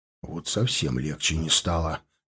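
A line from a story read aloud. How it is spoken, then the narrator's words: Barely audible mutter. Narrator (Russian): еле слышно пробурчал Херди, стараясь, чтобы услышали только я и Рабыш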